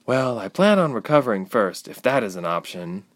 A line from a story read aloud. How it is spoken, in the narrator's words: Ilse sighed